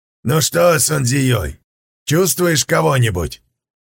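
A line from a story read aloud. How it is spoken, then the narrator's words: Shout. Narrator (Russian): крикнул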